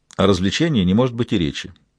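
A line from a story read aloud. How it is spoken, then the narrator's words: Dry, curt. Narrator (Russian): сухо отрезал он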